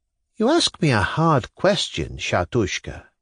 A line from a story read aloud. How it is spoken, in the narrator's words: answered dreamily, without a trace of surprise